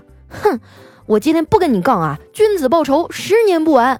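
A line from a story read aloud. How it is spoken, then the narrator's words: Through gritted teeth, resentful. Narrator (Chinese): 小黑被丸子怼的脸都绿了，咬牙切齿的说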